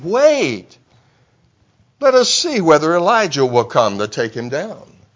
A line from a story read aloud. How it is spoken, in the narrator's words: the soldiers then chimed in with the mocking